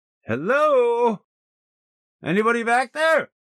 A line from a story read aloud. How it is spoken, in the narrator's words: Donnie hollered